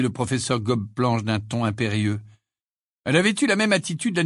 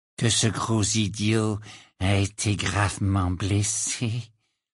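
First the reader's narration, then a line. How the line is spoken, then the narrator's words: Quiet, low voice. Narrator (French): dit-il à voix basse pour que seul Harry puisse l'entendre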